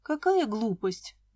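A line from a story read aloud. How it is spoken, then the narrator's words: Sigh. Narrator (Russian): вздохнула я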